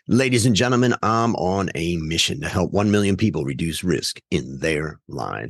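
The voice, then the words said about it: Exaggerated radio announcer voice. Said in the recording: “radio voice ... you got it down ... froggy in the morning”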